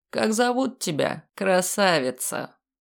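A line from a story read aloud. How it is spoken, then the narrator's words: Mocking. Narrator (Russian): Насмешливо поинтересовался хозяин леса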